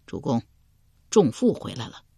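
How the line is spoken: Soft voice. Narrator (Chinese): 鲍叔牙 对齐桓公轻声说道

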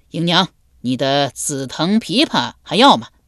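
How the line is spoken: Loud call from outside. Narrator (Chinese): 门外有人高声叫道

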